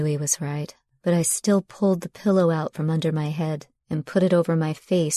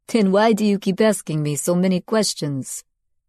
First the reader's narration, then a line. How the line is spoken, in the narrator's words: He laughed, though to take the sting out